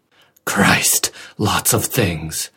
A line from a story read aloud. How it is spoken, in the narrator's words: said hoarsely